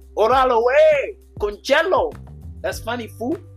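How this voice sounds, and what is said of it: Put-on Mexican accent. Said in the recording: “Mexican accent”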